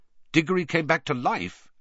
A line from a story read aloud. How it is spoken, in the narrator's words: said Sirius sharply